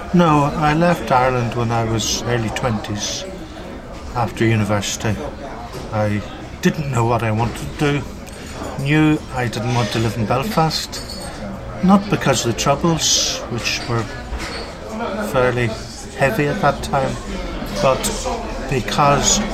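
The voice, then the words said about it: Irish accent, slightly faded. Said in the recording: “you have an Irish accent... Fading a bit... But it's still there... you still sound very Irish”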